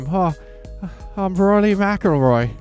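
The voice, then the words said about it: Poor put-on Irish accent. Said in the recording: “terrible Irish impersonation ... horrible accent ... it was so terrible. I thought it was Swiss”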